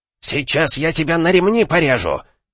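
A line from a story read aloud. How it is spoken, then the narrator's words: Breathless hiss. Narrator (Russian): прошипел Агай на мгновение, останавливаясь, чтобы перевести дух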